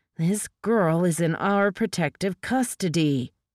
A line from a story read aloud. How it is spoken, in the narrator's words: Briggs growled